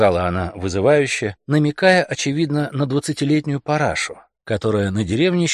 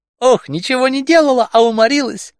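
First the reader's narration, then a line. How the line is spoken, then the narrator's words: Laughing shout. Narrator (Russian): крикнула она, смеясь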